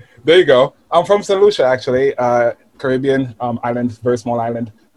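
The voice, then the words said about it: Slight West Indian accent. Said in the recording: “you've got a bit of an accent there ... I'm from the West Indies”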